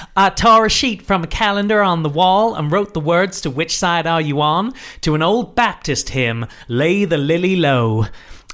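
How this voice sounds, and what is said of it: Put-on Kentucky Southern accent. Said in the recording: “So I've now got to do a Kentucky accent ... I think that's Georgia ... I'm going to stop the accent.”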